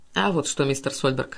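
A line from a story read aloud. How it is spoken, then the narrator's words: Calm. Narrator (Russian): спокойно отвечал Каупервуд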